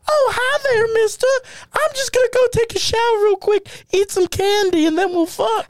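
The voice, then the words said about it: Adult imitating a young girl's voice. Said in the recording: “have like an adult do like a child's voice”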